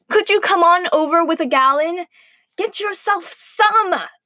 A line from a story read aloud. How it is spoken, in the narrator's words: snapped Mother, irritated